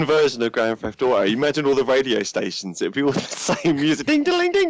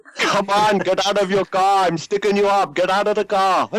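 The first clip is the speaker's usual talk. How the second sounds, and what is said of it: Attempted Indian accent. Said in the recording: “It's supposed to be an Indian accent”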